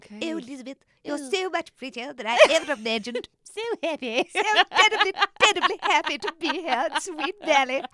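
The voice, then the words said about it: Put-on old-fashioned posh English accent. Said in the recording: “brief encounter style, old school English fox accent ... That's the only accent I can imagine this.”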